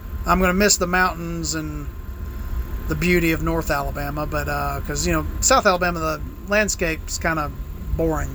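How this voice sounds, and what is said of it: Southern US hillbilly accent. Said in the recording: “right now I've got like the hillbilly redneck accent”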